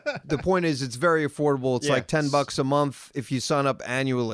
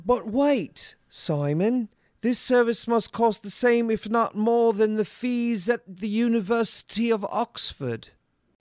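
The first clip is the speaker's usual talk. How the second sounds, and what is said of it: Put-on English accent. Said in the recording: “That was my English accent.”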